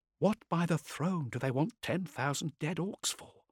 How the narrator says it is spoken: whispered

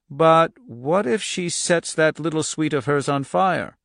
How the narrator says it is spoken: The man who had been monitoring the videotape equipment earlier had said hesitantly

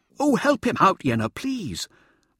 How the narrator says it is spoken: Mirza cried

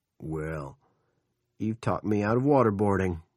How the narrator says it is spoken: Big Jim said

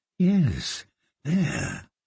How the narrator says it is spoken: she murmured

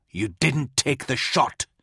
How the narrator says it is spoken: hissed

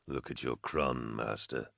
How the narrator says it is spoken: Vorna rumbled

